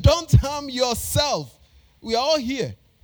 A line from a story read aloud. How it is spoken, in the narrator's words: Paul shouted